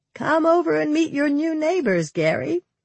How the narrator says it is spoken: she called out to him

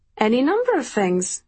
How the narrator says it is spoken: I laughed

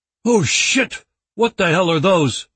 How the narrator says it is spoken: the player exclaimed in a frightened tone

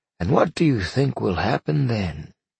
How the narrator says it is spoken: Arthur sighed

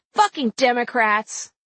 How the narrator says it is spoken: He yelled

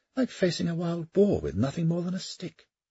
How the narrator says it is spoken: Kildare sighed

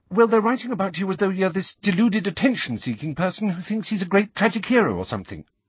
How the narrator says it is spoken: said Hermione, very fast, as though it would be less unpleasant for Harry to hear these facts quickly

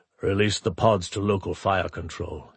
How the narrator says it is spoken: he told his ops officer coldly

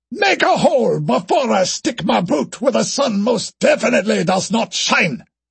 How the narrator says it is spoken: roared

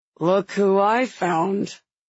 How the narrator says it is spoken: Evander says, the calm in his voice straining

